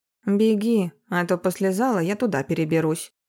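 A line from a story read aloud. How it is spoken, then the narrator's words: Low booming female voice. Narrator (Russian): низким голосом прогудела женщина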